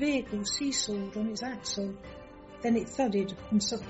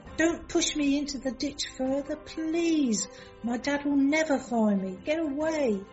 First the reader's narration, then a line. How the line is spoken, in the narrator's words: The screams